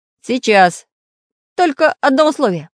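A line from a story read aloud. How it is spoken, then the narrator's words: Stern warning. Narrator (Russian): строго предупредил самоделкин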